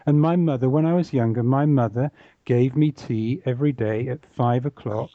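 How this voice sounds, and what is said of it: Standard southern English accent. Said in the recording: “I speak with a what many um, non English people would think is a standard English accent. I come from the south of England”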